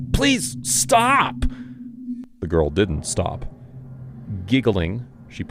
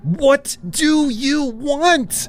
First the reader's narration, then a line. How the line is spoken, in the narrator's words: I screamed